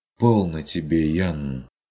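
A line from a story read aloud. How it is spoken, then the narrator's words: Relieved sigh. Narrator (Russian): С облегчением вздохнул Курт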